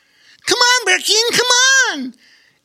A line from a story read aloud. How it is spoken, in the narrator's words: exclaimed Bobo Chico